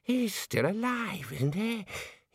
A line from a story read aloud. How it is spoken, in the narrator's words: wheezed